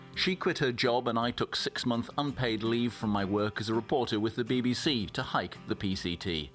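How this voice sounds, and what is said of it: English accent. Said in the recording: “As you can probably guess from my accent, I'm English”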